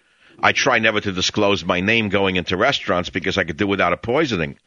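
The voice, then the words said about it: New York Brooklyn-sounding accent. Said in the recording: “are you from Brooklyn? ... My accent? ... Well, yeah, you sound just like my father.”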